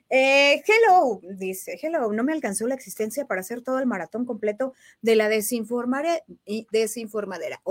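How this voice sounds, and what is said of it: Announcer-style reading voice. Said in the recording (Spanish): “voz de locutora”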